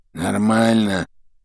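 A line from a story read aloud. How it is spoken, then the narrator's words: Muffled grumble from the right. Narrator (Russian): Справа послышалось глуховатое ворчание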